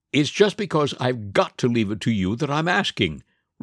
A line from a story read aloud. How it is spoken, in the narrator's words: replied the dragon rather testily